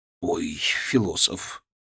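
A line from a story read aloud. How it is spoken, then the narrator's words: Grumbling. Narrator (Russian): Буркнул Киселев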